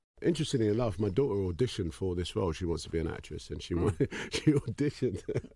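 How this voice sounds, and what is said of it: Man speaking with a distinctive accent. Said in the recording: “Oh, I love his accent.”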